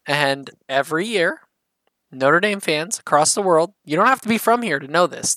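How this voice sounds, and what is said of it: Midwestern American accent. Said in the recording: “But the Midwestern accent.”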